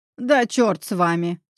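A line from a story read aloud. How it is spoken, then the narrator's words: Stern barking. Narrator (Russian): строго рявкнул он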